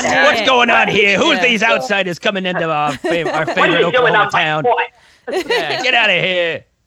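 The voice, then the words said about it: Put-on Boston accent, territorial character. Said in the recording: “What's that accent? I don't understand it. ... She sounds like Judge Judy. ... my impression of an Oklahoman being territorial was a guy from Boston.”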